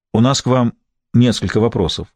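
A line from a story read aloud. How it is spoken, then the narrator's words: Plain. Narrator (Russian): сказал Гамаш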